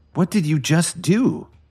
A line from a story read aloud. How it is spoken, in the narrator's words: Emmett coughed and asked him frantically